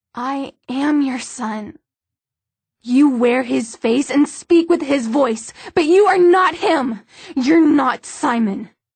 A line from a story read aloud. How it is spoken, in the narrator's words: Her voice rose to almost a scream